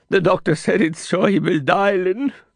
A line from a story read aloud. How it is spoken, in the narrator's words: Johnny sobbed